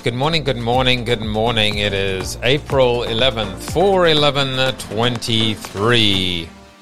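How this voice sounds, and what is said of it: Froggy, croaky voice. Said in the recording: “what is with that froggy voice?”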